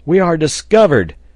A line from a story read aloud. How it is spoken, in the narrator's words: exclaimed Pencroft